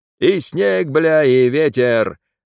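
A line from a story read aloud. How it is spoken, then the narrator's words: Gleeful yelling. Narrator (Russian): наслаждаясь, орал Федот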